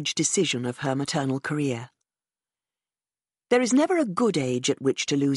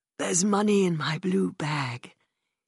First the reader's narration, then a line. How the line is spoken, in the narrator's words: told me hoarsely, in one of her last moments of lucidity